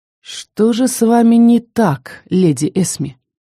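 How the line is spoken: Velvety whisper. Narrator (Russian): Очень бархатным голосом прошептал так, что у меня мурашки по коже пошли

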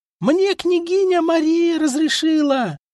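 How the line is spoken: Yelled at full voice. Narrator (Russian): Завопила во все горло Юлдуз

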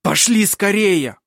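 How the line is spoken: Shouted. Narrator (Russian): крикнул Хейке

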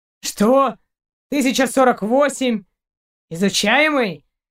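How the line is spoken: Indignant growl. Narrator (Russian): Шейн возмущенно зарычал не хуже Каранца

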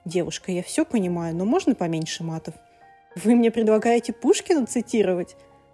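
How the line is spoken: Snapped back. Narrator (Russian): Огрызнулась Алекса в ответ

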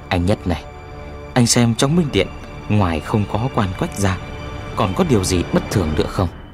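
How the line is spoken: Quiet surprised reminder. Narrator (Vietnamese): Cả ba đều rất kinh ngạc, răng vàng nhắc khẽ

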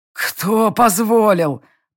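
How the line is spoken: Wheezing. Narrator (Russian): просипел Гордуил

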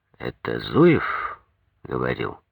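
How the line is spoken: Sighing question. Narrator (Russian): Дункай вздохнул, спросил

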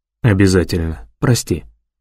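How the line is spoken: Quiet reply. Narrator (Russian): тихо отзывается Уоллес

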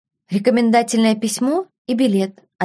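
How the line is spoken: Plain. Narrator (Russian): ответила Беладонна

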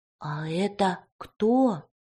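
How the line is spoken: Spellbound whispered question. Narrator (Russian): шепотом спросил Никита, как зачарованный

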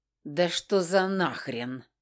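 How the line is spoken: Angry growl. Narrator (Russian): прорычала, злясь на себя за эту дурость

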